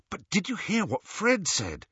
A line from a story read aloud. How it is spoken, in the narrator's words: asked Harry excitedly